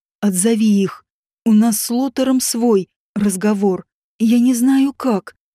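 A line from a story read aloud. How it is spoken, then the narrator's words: Muffled wheezing girl. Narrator (Russian): просипела девушка, прячась в его объятиях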